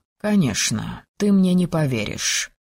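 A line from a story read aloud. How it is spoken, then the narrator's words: Quiet, doomed, bitter voice. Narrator (Russian): тихо продолжил Арис каким-то обреченным, горьким голосом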